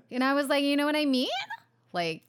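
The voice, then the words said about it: Upspeak, voice rising high. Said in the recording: “upspeak ... Where you speak up like that? ... The voice goes really high like that.”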